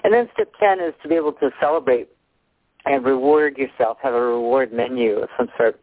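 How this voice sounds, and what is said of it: Voice giving out, slightly hoarse. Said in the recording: “I think I'm losing my voice here a little bit.”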